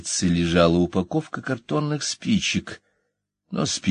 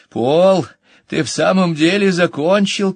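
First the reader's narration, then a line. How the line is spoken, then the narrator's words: Shouted from corridor. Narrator (Russian): крикнула она из коридора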